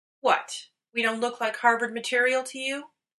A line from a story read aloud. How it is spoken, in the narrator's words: Dean spluttered